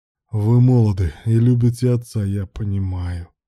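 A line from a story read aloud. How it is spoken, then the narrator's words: Creaky voice. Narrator (Russian): проскрипел Руслан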